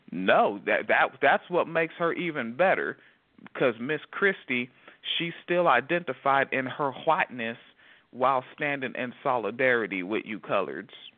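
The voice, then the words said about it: Put-on Southern accent. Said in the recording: “as you're trying to mansplain something terribly in a southern accent”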